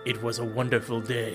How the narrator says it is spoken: he said, in a somewhat ominous voice

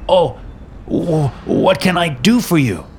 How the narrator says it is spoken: Giuseppe stammered

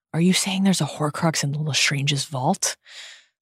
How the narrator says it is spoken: she whispers

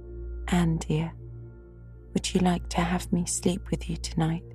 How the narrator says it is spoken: Diana ... said gently

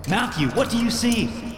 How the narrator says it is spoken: shouted

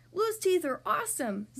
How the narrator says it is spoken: Zuma exclaimed

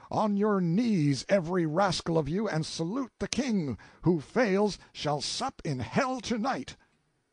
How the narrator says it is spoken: I tore away noose and bandage, and shouted

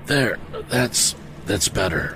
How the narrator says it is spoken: murmured Mr

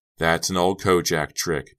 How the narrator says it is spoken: Pete exclaimed, obviously relieved that he was still alive to tell her that

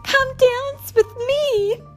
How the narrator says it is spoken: each of them cried

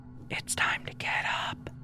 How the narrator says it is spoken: my boyfriend whispering to me

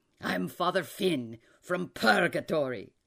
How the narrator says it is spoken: he said in a hearty voice

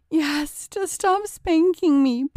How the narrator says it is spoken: pleaded John

